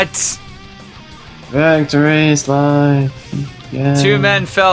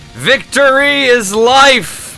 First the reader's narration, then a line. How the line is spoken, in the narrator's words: the Jem'Hadar, who charged forward yelling